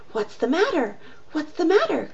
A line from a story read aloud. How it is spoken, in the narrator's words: cried they